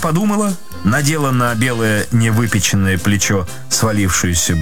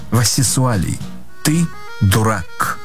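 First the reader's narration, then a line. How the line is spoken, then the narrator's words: Calm reply. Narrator (Russian): Спокойно ответила жена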